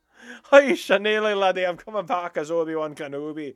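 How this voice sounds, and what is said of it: Put-on Scottish accent. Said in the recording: “I love doing the Scottish accent, sonny.”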